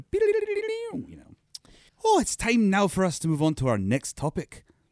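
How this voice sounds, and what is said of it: Put-on accent. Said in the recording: “it's weird you would do an accent right now”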